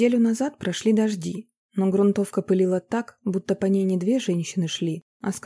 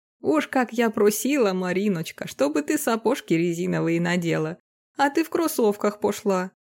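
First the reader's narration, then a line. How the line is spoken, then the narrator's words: Laughing. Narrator (Russian): Смеялась тетя Лена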